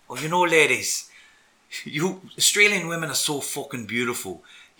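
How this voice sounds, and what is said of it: Put-on Irish accent. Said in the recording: “put on an Irish accent ... I've bunged on this Irish accent all day”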